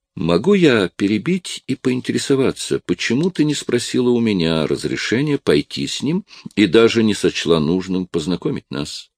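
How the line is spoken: Forced calm, hidden agitation. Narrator (Russian): Скарлетт старалась говорить спокойно, ничем не обнаруживая своего волнения

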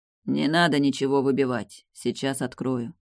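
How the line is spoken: Hoarse, displeased voice. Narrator (Russian): сиплый недовольный голос произнес

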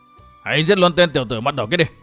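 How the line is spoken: Loud barked command. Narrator (Vietnamese): Một tên hổ pháp quát lớn

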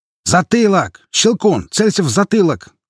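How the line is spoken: Shouted. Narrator (Russian): крикнул чех

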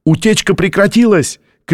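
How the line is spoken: Shouted. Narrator (Russian): крикнул техник

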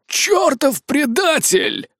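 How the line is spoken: Growled. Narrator (Russian): прорычал он

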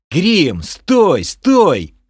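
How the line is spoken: Yelled. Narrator (Russian): заорал я

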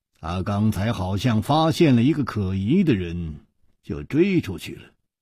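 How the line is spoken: Calm, indifferent. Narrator (Chinese): 楚留香淡淡地说

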